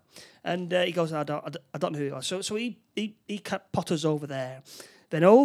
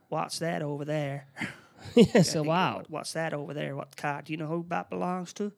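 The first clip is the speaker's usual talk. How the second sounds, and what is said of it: Terrible imitation of another person's voice. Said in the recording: “terrible impression”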